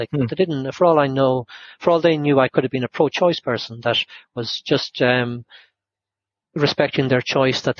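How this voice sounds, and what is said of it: Irish accent. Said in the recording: “by my accent and that I was Irish”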